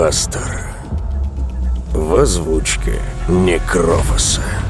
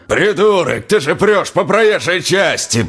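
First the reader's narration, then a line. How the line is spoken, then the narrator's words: Father shouting. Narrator (Russian): прокричал отец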